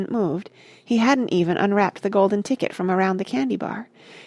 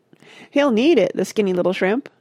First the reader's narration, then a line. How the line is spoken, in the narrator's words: a girl said, laughing